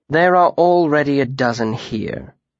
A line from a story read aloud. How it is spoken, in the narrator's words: he said grimly